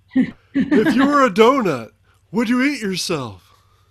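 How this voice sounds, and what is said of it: Imitates another person's voice. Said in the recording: “I don't think I'm getting any better at this impersonation, but if you know who Harry Carey is”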